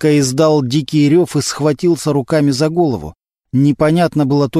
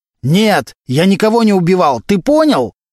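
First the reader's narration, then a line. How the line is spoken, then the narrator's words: Very loud shouting. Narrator (Russian): Валентин настолько громко кричал, что в допросную ворвался конвойный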